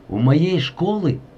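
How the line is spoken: Exclaiming. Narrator (Russian): воскликнул

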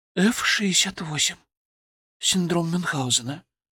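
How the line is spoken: Whisper. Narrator (Russian): прошептала она

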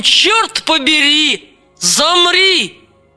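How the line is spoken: Shouted. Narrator (Russian): Пусть кто-нибудь крикнет нам

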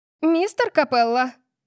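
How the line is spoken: Shrill squeal. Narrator (Russian): взвизгнула библиотекарша

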